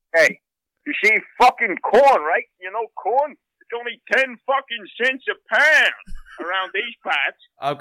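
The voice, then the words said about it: Put-on regional American accent. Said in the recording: “I'll do this accent and you tell me where it is from ... Minnesota”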